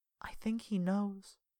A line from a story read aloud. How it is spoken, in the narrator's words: she whispered